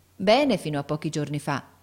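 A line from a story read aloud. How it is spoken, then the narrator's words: Plain. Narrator (Italian): rispose mia madre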